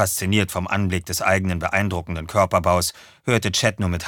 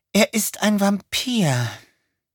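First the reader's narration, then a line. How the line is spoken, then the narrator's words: Sighing. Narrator (German): seufzte sie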